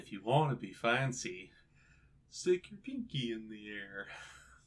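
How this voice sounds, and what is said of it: Cartoon character voice impression. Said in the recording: “That's a really good impression, actually.”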